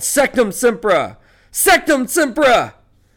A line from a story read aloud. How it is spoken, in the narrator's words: Harry yelled